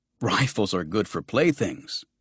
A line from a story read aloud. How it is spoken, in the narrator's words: the young man said, and he laughed, a little scornfully perhaps